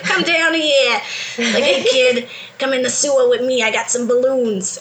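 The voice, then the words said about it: Put-on New York accent. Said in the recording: “he had kind of like a New Yorker accent”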